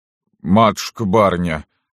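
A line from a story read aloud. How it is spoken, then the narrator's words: Moaning. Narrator (Russian): простонал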